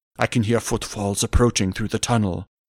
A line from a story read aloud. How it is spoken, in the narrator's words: growled Grinyar in a hushed tone